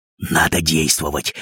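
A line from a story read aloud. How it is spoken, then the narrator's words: Whisper. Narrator (Russian): прошептал Крендель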